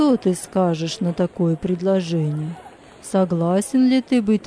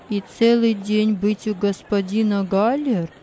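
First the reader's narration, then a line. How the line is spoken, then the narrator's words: Plain. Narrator (Russian): спросил Джузеппе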